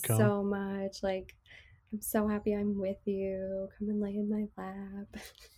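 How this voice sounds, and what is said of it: Soft, soothing, whispery voice. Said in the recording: “that really soft tone ... you're whispering ... soothing voice”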